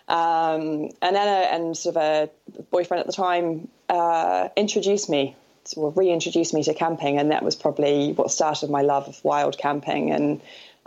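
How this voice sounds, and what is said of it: New Zealand accent. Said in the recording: “your accent suggests you are a Kiwi”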